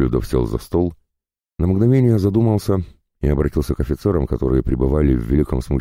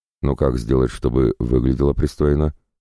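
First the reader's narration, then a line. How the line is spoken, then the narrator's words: Plain. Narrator (Russian): спросил Неклюдов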